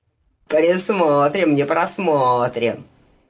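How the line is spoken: Chuckling. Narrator (Russian): хохотнул парень в красном балахоне

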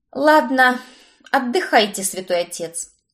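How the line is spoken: Sighing. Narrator (Russian): Вздохнула я

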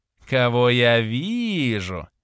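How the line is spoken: Sugary sing-song voice. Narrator (Russian): елейным голосом пропела Анастасия

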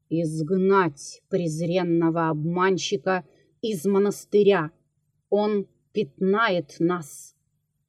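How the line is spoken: Commanding. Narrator (Russian): он сказал повелительным голосом

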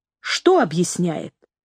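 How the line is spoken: Plain. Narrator (Russian): спросила Джорджи

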